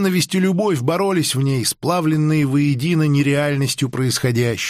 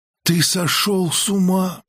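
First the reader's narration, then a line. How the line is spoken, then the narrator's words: Whisper. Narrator (Russian): прошептала Анге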